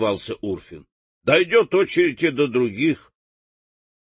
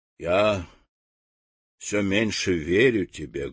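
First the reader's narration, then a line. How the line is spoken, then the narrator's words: Sad remark. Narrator (Russian): грустно замечала благородная птица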